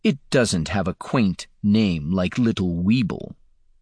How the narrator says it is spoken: Damon purred

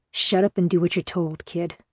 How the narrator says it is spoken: Nico said quietly for my ears only

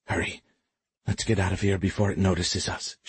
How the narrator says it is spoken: she said quietly

